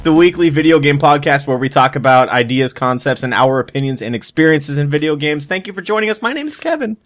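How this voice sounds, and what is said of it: High-pitched, rushed in one breath. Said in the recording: “I did that all in one breath. That's why my voice went high.”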